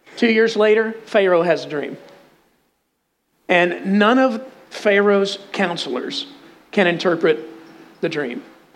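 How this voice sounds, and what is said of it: Texan accent. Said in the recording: “I'm from Texas... I've tried to lose this accent because when you talk like this”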